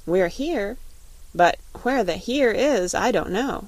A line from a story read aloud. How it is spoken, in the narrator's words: he said cheerfully